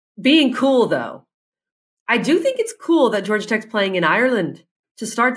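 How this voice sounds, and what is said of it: Put-on Irish accent. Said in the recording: “Very good Irish accent”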